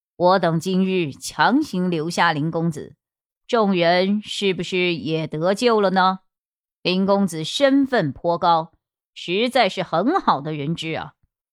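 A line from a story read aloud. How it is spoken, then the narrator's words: Sinister, icy cold. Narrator (Chinese): 木子爷嘴角扬起莫名的邪笑，阴冷冷的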